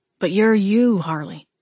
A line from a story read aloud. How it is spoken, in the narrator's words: Wade replied, his tone firm and strangely comforting